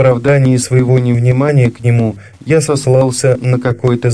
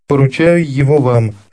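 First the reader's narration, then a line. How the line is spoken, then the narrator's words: Laughing speech. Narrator (Russian): сказала она, смеясь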